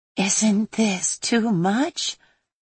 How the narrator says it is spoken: Bella whispered to Rella

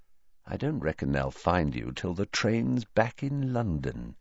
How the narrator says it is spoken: he said quietly

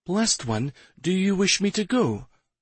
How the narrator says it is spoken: Amana asked timidly

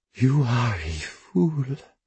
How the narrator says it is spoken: she whispers, unsurprised

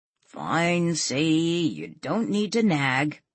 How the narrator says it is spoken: Walt grumbled

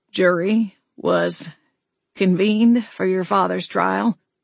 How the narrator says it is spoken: Alton replied, his voice shaking slightly

